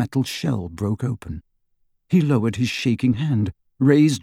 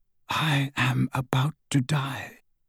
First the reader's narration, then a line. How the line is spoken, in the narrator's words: whispered